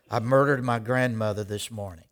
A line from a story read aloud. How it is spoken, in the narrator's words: the president would mumble